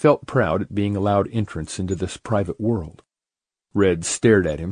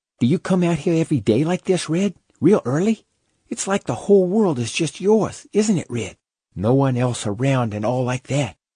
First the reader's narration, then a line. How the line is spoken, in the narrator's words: Slim said eagerly